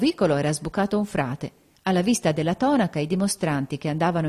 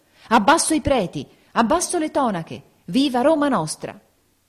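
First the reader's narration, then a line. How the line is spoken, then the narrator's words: Threatening crowd shouting. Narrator (Italian): la folla minacciosa e urlante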